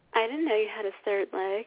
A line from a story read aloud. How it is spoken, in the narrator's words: she moans